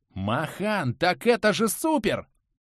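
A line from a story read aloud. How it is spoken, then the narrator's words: Dwarf exclaiming. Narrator (Russian): воскликнул гном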